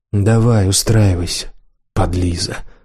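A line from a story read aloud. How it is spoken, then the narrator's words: Mumbling, suppressing a smile. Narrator (Russian): пробурчал Демьян, пряча улыбку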